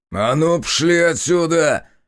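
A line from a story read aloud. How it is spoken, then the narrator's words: Barked. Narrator (Russian): Рявкнул мужик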